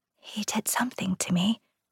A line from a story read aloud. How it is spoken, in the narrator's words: she whispered